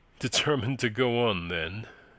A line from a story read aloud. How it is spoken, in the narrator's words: he said dryly